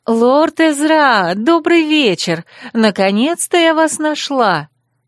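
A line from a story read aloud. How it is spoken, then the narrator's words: Joyful sing-song. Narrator (Russian): радостно пропела я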